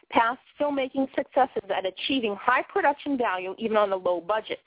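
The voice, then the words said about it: Boston accent. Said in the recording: “I know I have the Boston accent”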